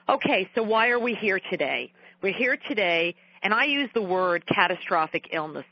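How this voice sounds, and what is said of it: Thick New York accent. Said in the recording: “my New York accent is a tad too thick”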